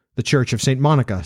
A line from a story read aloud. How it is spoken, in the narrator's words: said I